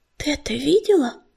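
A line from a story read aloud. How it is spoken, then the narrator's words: Whisper. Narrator (Russian): прошептала пепелица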